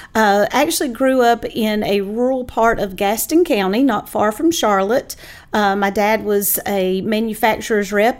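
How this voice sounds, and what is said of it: North Carolina Southern accent. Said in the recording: “I grew up in the foothills of North Carolina, which is why the accent sounds as it does.”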